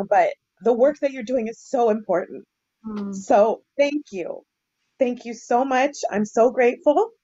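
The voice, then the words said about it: Emotional voice. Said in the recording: “emotional just to hear you both fighting ... excuse my getting emotional”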